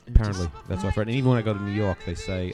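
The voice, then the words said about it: New York American accent. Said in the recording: “If you couldn't tell by the accent, ... actually American... New York City, Manhattan... you still held on to that accent?... you still sound like a New York”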